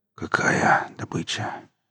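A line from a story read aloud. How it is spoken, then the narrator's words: Confused wheeze. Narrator (Russian): прохрипел еще ничего не понимавший Дима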